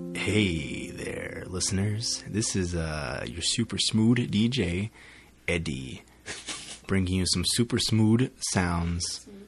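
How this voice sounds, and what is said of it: Smooth late-night DJ voice. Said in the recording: “a mixture of like an airline pilot and a guy who works in the video store after midnight ... Why are there so many D's in your words?”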